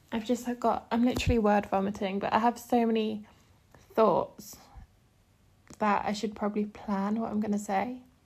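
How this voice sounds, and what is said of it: Out of breath, talking fast. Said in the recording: “I'm getting out of breath.”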